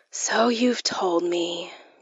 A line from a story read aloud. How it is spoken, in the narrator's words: I said wearily